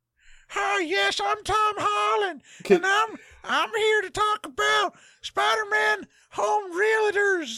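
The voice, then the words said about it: Imitates another person's voice. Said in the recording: “my Tom Holland impression”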